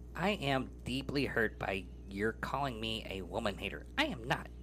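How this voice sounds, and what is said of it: Put-on voice of a talking dog. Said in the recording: “it kind of sounds like the dog's talking ... I'm gonna try to do this voice”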